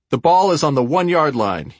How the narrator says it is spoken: he shouted

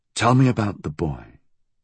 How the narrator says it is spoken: he said again, his voice calm

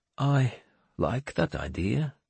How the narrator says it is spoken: Seatrigger said quietly

